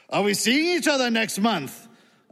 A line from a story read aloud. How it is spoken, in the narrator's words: a man asked loudly